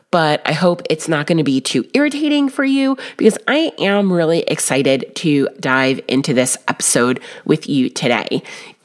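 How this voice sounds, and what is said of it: Funny-sounding voice from illness. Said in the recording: “I might sound a little funny today because I am coming to you with perhaps the virus ... still with a very funny voice”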